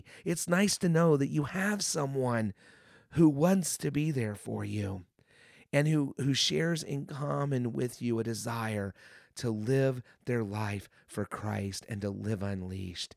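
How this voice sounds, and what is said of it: Hoarse, strained voice. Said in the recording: “losing my voice. I've had this cold and I just can't shake it.”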